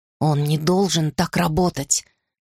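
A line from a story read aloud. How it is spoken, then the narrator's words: Muttering under breath. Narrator (Russian): бормотала я себе под нос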